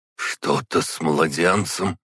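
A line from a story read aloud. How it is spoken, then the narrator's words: Hoarse, voice involuntarily changed. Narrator (Russian): просипел, голос его невольно изменился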